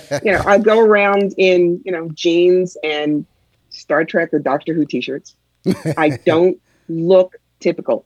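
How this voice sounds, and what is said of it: New York accent. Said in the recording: “I have a New York accent, but it's not as bad as the Long Island Indian.”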